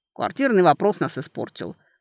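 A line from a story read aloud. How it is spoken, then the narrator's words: Muttered with a sigh. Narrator (Russian): буркнул Виктор, вздыхая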